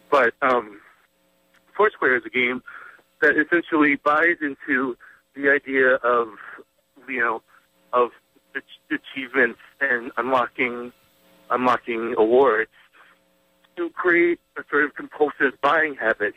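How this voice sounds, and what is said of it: Hoarse, fading sick voice. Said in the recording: “I'm sorry I'm losing my voice a little bit because I'm sick”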